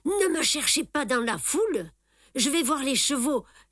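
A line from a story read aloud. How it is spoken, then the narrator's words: Joyful exclamation. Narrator (French): s'exclame joyeusement Simon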